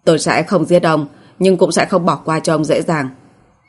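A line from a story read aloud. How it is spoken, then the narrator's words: Cold. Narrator (Vietnamese): Cố Kỳ Châu lạnh lùng nói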